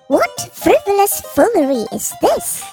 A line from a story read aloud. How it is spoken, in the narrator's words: Hammy squeaked in bemusement